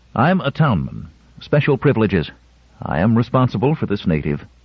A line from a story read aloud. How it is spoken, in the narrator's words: Terrence said quickly